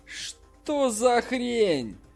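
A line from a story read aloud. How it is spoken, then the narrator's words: Group exclaiming together. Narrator (Russian): воскликнула вся группа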